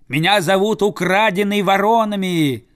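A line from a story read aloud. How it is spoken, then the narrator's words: Boy yelling. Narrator (Russian): заорал мальчик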